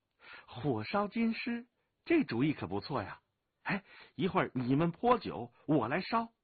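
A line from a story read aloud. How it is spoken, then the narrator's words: Laughing, excited. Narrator (Chinese): 武清微眼睛一亮，拍手笑着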